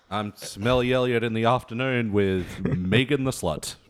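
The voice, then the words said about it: Radio DJ voice. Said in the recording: “I do my talking voice ... Radio talking voice ... your drive time name”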